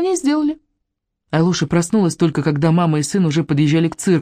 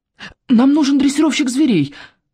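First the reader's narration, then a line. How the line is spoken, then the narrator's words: Hurried. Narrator (Russian): торопливо сказал Павлик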